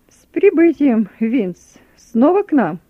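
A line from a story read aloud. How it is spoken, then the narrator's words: Cheerful greeting. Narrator (Russian): Бодрым голосом приветствует подполковник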